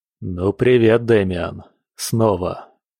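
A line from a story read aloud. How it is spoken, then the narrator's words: Hoarse, slightly low greeting. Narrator (Russian): Хрипло, чуть низко поздоровался Женя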